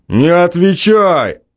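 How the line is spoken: Drunken shout. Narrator (Russian): крикнул и пьяно

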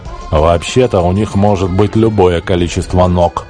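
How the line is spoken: Grumbled. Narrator (Russian): проворчал Бог

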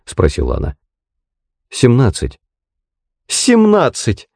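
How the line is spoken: Exclaimed. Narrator (Russian): воскликнула она

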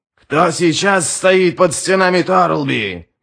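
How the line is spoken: Roaring to warriors. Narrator (Russian): взревел он собравшимся воинам

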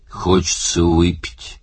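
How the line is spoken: Grumbling. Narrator (Russian): пробурчал Оттор

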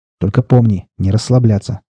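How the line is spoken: Stern. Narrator (Russian): строго сказал ему Седой

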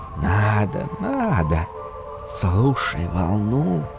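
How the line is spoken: Dunes whispering. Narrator (Russian): шепнули в ответ дюны

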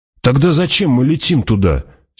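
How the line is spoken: Angry question. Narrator (Russian): сердито спросил Пауль

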